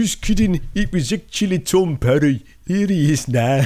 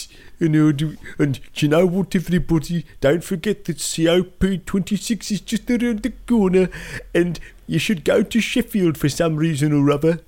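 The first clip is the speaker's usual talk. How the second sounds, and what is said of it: Put-on Wolverhampton accent. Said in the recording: “I can do a Wolverhampton accent”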